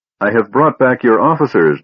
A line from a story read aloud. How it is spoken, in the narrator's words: the man said, his voice harsh and blaring